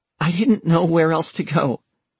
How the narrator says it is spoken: Taylor said shakily

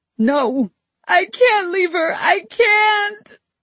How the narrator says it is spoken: I wailed

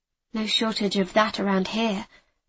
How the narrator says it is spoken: I muttered

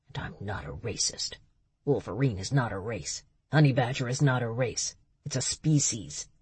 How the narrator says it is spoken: But as he walked away, he muttered

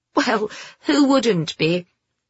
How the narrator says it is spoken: Pamela laughed

